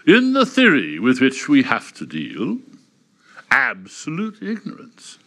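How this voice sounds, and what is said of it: Put-on Oxbridge accent. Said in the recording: “I'm going to attempt to do it in a sort of Oxbridge accent”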